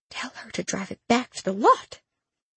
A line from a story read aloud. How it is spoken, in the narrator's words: Mama whispered